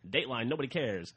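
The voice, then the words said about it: Old-timey newsreader voice. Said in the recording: “the old-timey news voice”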